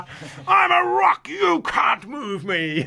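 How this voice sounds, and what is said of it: Yelling in character. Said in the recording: “He's yelling out loud.”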